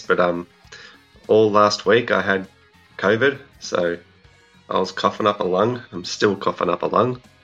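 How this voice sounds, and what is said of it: Croaky, hoarse voice. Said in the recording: “I don't know if you can hear it in my voice ... just got this annoying cough and a croaky voice. So sounding a bit like a frog.”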